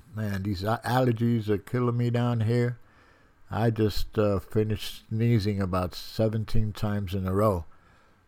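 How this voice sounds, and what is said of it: Stuffy, congested voice. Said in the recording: “I sound a little stuffy”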